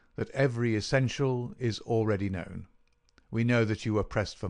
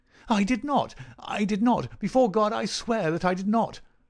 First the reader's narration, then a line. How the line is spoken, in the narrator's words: cried our wretched prisoner